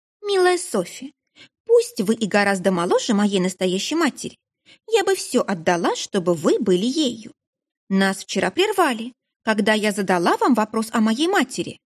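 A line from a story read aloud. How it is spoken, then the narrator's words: Calm. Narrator (Russian): она произнесла вполне спокойно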